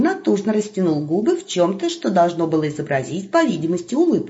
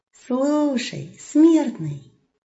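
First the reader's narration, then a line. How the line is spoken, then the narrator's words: Gentle, wolf. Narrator (Russian): Ласково обратился волк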